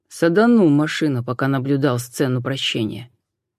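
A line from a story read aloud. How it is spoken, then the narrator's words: Gloomy confession. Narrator (Russian): мрачно признался Суарес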